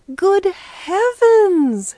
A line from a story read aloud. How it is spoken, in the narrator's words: she exclaimed